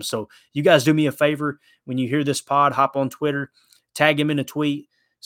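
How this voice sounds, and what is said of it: Strong Kentucky Southern accent. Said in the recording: “this redneck from Kentucky with this horrible accent”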